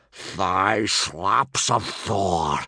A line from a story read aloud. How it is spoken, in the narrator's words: growled Gobber